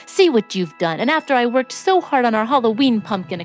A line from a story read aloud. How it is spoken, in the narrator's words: exclaimed Antoine